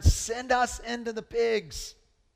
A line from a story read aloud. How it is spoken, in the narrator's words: the demons begged him